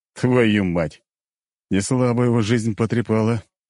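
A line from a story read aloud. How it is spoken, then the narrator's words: Snorted. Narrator (Russian): хмыкнул Быков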